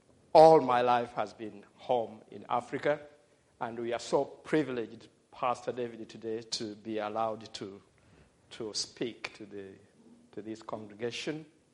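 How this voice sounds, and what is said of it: African accent. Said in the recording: “my accent may not be so clear to everybody, because I'm African and I grew up in Africa”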